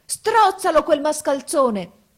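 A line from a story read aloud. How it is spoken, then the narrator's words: Wizard yelling. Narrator (Italian): urlò il mago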